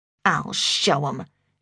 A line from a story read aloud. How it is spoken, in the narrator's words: she muttered